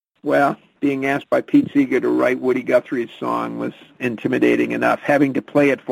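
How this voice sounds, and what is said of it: Usual voice. Nothing is said of it.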